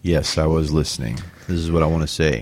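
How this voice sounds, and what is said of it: Deep gravelly baritone impression. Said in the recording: “Why are you doing that voice? ... he kind of has this deep, gravelly baritone sort of thing.”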